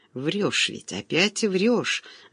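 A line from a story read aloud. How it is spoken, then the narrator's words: Breathless whisper. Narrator (Russian): задыхающимся шепотом выдохнула Светлана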